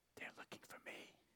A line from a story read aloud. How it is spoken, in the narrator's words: Still whispering, the young voice replied